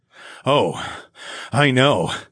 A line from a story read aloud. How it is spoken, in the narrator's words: I smirked